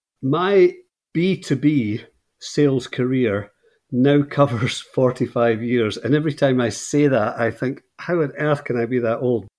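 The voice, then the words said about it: Scottish accent. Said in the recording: “you'll notice immediately from the accent that I'm not from those shores ... I'm from Scotland originally”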